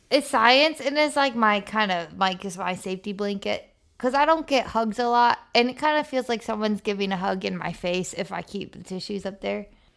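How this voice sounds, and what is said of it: Congested, blocked-nose voice. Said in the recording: “why I sound a little congested ... your airflow is congested, but just not by like mucus or normal things, just by tissues”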